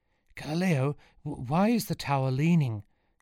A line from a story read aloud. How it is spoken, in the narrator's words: gasped Sean as he ran alongside, struggling with the heavy ball